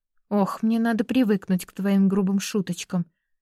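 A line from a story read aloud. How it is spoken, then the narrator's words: Sigh. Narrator (Russian): вздохнула она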